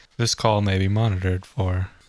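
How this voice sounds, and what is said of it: Robotic automated-message voice. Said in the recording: “our robot voice”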